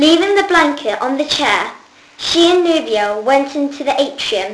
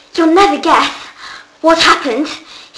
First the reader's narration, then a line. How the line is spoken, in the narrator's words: he gasped